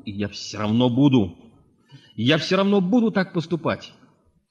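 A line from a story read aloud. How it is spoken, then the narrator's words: Shouting. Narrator (Russian): А мой брат кричал на полу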